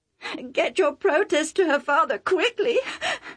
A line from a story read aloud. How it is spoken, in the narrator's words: Rebecca sobbed